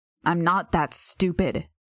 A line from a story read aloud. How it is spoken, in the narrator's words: she growled